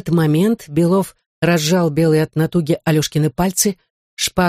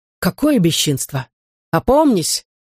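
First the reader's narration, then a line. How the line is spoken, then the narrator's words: Exclaimed. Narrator (Russian): воскликнул Котов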